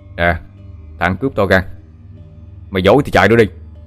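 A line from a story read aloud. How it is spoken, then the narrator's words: Intimidating shout. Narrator (Vietnamese): Quý đang ra oai phủ đầu, miệng quát lên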